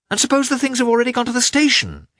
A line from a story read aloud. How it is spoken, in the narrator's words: he exclaimed in despair